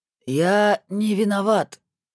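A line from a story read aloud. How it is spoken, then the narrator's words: Hoarse wheeze. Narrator (Russian): только и успел просипеть тот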